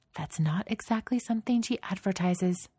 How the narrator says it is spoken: Misha whispers

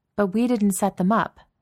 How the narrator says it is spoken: Maria said sharply

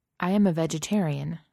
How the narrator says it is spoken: Spock said

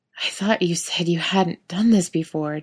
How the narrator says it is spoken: Dean gasps between deep, panting breaths

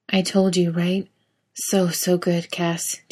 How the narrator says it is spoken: Dean says, his voice hoarse and a total mess, tight with way too much shit he can't name

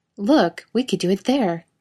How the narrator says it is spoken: Summoning up all the enthusiasm of a children's television presenter, he exclaimed

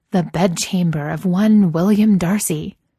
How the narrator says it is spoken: Gigi says, in a dramatic voice

